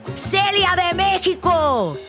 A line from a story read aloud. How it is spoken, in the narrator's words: another person yelled